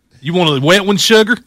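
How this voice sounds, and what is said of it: Put-on Southern accent. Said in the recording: “Why can't she have a southern accent?”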